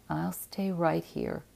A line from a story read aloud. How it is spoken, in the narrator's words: he said bitterly